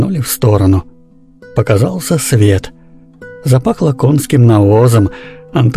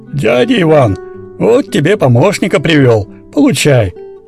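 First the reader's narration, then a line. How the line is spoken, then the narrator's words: Man shouting. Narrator (Russian): крикнул шахтер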